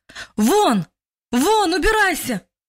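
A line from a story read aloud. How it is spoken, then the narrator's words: Louder shout. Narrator (Russian): уже громче крикнул мужчина во второй раз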